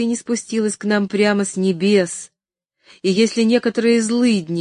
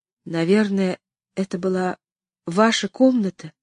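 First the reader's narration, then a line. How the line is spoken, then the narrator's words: Frightened whisper. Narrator (Russian): испуганно прошептала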